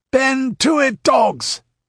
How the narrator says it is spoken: roared Tito with a passionate gesture

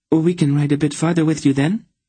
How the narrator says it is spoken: Tenedra said quickly

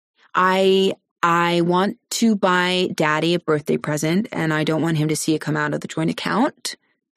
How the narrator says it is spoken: she says smoothly

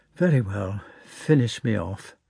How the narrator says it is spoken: she said to the footman in a sad voice

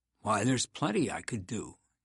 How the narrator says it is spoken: he said

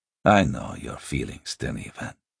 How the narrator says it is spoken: the lector said gently

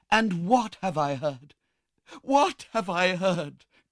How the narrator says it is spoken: cried Rose

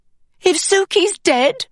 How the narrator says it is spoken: I shouted

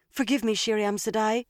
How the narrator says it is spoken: she said quickly

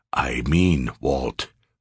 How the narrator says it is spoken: Sears calmly said

